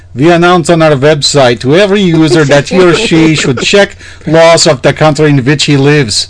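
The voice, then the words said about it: Put-on Russian accent. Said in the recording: “Can you do a Russian accent there? ... Where do you want me to do a Russian accent at?”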